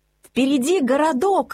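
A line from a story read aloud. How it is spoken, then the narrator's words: Joyful shout. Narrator (Russian): радостно крикнул Мац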